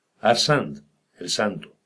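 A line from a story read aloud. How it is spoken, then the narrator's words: Plain. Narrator (Spanish): contestó la voz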